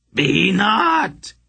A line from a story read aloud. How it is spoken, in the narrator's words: he cried out desperately